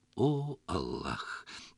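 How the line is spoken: Solemn. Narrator (Russian): торжественно пояснил Хаджа

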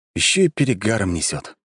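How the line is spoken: Sigh. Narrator (Russian): вздохнул я

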